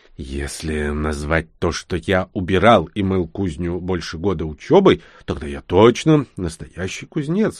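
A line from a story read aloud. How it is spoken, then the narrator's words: Barely audible hiss. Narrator (Russian): едва слышно прошипел я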